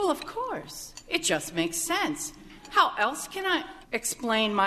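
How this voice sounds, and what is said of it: Usual voice. Nothing is said of it.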